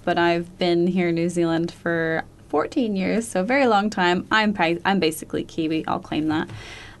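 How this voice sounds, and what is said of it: Slight American accent. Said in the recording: “as you can tell, I have a bit of an accent. So I was born and raised in the States”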